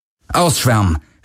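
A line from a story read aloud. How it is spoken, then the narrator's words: Called out. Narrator (German): rief Galen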